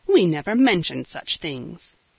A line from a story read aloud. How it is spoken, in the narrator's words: Cecily, sharply